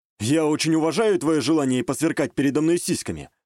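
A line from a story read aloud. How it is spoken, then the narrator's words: Smirking snort. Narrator (Russian): хмыкнул я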